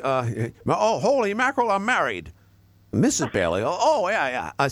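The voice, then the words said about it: Impression of an old film character. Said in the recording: “impersonations of It's a Wonderful Life”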